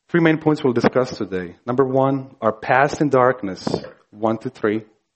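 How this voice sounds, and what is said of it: Speaks with an accent. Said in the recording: “you noticed I have an accent, right?”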